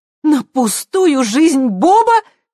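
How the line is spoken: Almost shouting. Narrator (Russian): почти закричала Хелен

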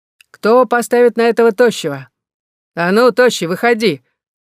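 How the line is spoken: Shout from arena. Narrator (Russian): крикнули с арены

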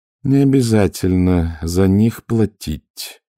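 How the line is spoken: Tired. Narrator (Russian): устало сказала

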